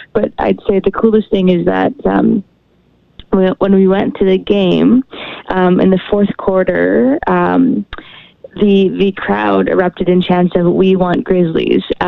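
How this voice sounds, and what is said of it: Hoarse, strained voice. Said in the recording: “there's lots of chanting as well, as that's how I lost my voice.”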